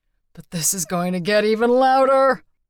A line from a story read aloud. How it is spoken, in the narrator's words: he wheezed